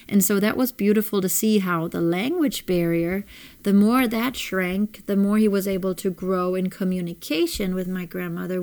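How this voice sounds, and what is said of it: Noticeable non-native accent. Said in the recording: “you can hear my accent and you will hear my grammatical errors ... where are you from? What's your accent?”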